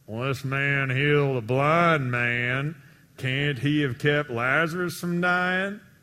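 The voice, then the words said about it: Sarcastic voice with put-on accent. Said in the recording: “I added the accent there... you pretty much get the sarcasm”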